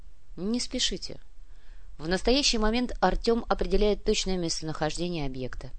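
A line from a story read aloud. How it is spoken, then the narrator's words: Calm. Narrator (Russian): спокойно произнес Сантьяго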